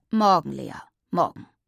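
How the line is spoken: Muffled growl. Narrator (German): knurrte Papa hinter seiner Zeitung

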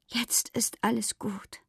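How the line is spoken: Whispered. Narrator (German): flüsterte sie

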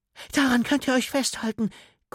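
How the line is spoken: Panting. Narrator (German): keuchte sie noch

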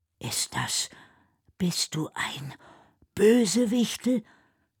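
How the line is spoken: Almost voiceless whisper. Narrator (German): flüstert Noah fast tonlos

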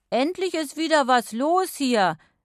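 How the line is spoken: Excited calling out. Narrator (German): rief Lorenz schließlich begeistert

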